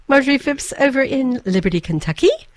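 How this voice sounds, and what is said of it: Put-on hybrid English accent. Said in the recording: “an English accent ... actually, it's kind of a hybrid.”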